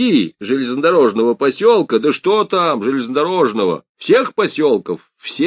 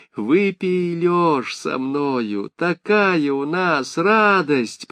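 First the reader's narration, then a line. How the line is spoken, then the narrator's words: Generous old woman offering. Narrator (Russian): предложила бабка Тутышха от щедрот своих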